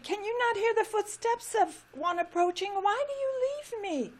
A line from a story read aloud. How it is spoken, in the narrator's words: cried the tree